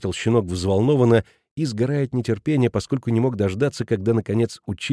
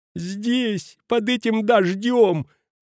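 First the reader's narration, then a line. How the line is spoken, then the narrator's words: Whining. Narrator (Russian): проскулил Петрина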